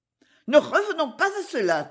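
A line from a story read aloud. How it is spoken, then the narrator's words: Disgusted outburst. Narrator (French): s'écria-t-elle à son tour avec une soudaine explosion de dégoût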